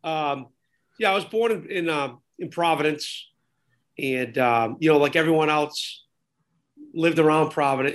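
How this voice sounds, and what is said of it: New England accent. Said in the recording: “you're obviously New England from your accent”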